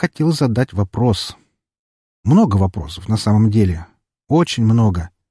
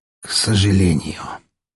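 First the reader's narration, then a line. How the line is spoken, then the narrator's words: Hoarse wheeze. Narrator (Russian): прохрипел Распутин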